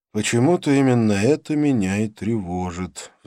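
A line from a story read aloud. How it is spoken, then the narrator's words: Sigh. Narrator (Russian): вздохнул я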